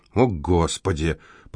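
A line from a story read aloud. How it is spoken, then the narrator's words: Muttered aloud. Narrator (Russian): пробормотал Винсент вслух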